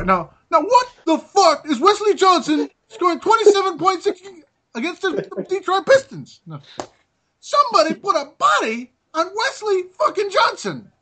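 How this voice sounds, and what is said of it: Imitates another person's voice. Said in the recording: “if I'm imitating somebody ... Can I do what Keelan King must have been saying tonight? ... That was a bad imitation ... That's how he talks, though, on the show.”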